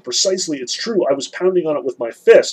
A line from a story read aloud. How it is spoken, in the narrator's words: He shouts out to Alyosha